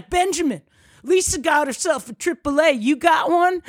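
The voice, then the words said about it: Put-on Southern redneck accent. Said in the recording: “it sounds like you're doing an impersonation of like, you know, like some ... Southern oh, redneck ... You got to get the Southern accent.”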